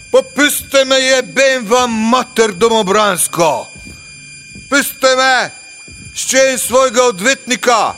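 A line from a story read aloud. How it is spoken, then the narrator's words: Shouting. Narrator (Slovenian): Varga je kričal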